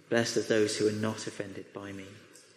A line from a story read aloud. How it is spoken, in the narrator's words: he just gently says